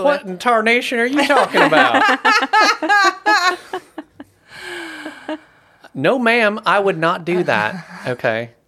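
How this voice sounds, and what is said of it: Put-on blended Southern US accent. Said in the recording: “which Southern state is this accent from? I'm picking up more than one ... I'm combining a couple ... it's a blend”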